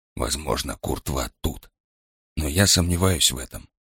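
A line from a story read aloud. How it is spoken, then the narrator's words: Whisper right into ear. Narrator (Russian): прошептал он Розе в самое ухо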